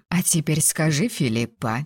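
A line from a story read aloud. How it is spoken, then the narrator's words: Quiet request. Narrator (Russian): тихо попросила мать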